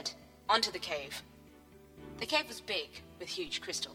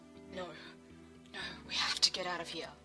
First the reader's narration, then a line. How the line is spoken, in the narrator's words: he breathed